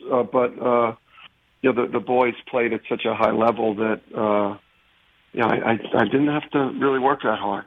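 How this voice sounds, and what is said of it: Hoarse, strained voice. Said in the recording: “your throat's still, tournament tested. It sounds like your voice... Still hoarse. Yes, definitely still hoarse”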